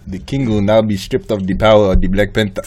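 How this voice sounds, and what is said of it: Imitates another person's accent. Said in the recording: “Nah, that's just the accent. That's not even a voice.”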